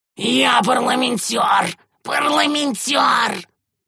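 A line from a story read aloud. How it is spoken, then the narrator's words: Choked hissing. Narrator (Russian): зашипел Шурд, держась руками за свое пережатое горло, налившееся синевою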